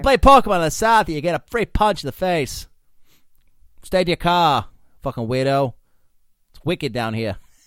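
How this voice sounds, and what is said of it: Bad put-on Boston accent. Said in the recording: “said the Boston native ... That's really bad ... accent ... Bad ... That was terrible ... That was a good try, but no. Just no ... I'll do bad accents all day if I want”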